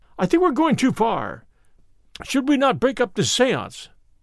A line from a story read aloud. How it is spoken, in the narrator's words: I cried